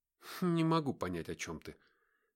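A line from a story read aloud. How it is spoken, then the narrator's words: Muttered in thought. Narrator (Russian): мысленно пробормотал я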